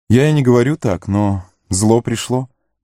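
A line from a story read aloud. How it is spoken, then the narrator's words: Sad. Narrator (Russian): печально сказал Легулас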